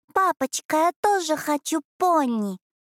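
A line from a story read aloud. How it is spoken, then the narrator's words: Sing-song angelic child voice. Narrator (Russian): пропела ангельским голосочком маленькая Аребелла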